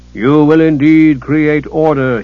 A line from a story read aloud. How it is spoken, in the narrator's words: thundered